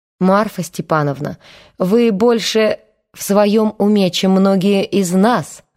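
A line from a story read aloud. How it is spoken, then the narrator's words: Crude flattering tone. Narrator (Russian): грубо польстил Иннокентий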